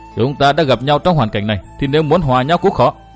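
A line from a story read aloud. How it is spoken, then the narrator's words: Laughing loudly. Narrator (Vietnamese): Nguyên Bình cười to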